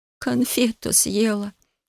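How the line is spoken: Unhappy reply. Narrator (Russian): несчастным голосом ответила

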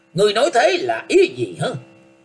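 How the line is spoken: Harsh, gritted voice. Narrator (Vietnamese): Thích Khôn lại gằn giọng nói

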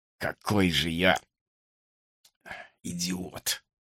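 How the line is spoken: Muttering. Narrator (Russian): пробормотал он

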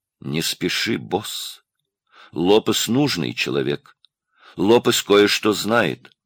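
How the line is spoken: Quiet, deliberate, separated words. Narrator (Russian): негромко раздельно сказал

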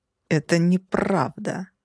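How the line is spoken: Angry, through gritted teeth. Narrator (Russian): процедил сквозь зубы изрядно обозлившийся капитан

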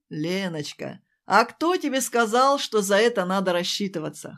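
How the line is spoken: Pleased chuckle. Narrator (Russian): хохотнул Левушка довольно

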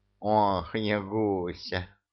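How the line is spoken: Sighing cat. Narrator (Russian): вздохнул кот

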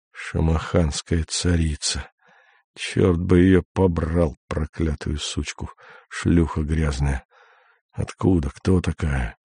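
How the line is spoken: Unintelligible foreign muttering. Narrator (Russian): Бормочет невразумительные на непонятном языке

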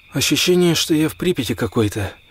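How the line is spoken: Muttered. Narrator (Russian): пробормотал Лёха

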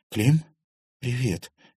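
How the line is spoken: Uncertain. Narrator (Russian): неуверенно произнесла Серафима

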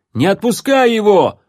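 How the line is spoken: Guard shouting. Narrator (Russian): закричал Амбалу стражник

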